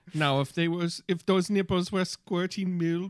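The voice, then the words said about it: Put-on unidentifiable fake accent. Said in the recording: “this isn't even a German accent. I don't know what this accent is.”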